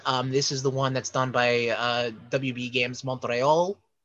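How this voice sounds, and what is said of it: Put-on French accent. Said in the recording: “You have to say it with the little French accent.”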